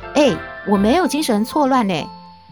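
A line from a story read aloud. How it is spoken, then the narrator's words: Angry. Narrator (Chinese): 我很生气地说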